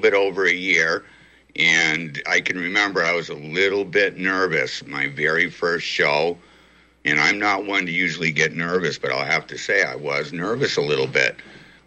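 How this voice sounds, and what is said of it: Western Massachusetts accent. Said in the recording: “I like your voice, and I like your accent, but I can't place it. What has influenced your inflection and your accent? ... I am from Western Massachusetts. I'm just an angry country boy. So I don't have that Worcester dialect. I don't quite sound like a Bostonian.”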